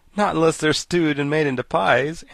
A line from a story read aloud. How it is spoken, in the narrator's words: answered the boy, laughing